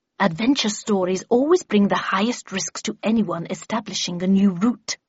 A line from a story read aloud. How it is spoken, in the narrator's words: hissed back Miss Havisham